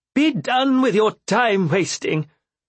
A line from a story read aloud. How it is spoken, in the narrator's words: Capra barked the words